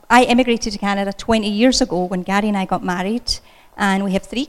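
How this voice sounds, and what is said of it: Scottish accent, fast speech. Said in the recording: “as you can tell by this accent, I wasn't born in Pickerington... I usually speak super fast... I was born in Scotland”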